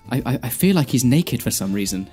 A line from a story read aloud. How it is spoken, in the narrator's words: Dan said anxiously